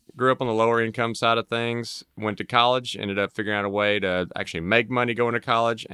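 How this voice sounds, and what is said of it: Mississippi Southern US accent. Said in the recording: “Grew up in Mississippi, so that's where you'll hear this lovely accent.”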